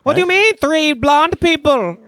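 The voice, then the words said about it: Sofia Vergara impression sounding Indian. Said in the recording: “your impression of Sofia Vergara an Indian man”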